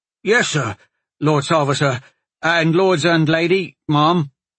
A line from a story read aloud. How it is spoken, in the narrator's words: Cully said nervously